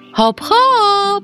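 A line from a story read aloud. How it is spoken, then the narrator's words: Shout. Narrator (Polish): krzyknął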